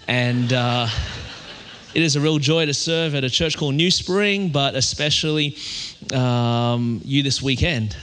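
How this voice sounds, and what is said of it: Australian accent. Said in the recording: “Born and raised in Melbourne, Australia. That's the reason my voice is this way.”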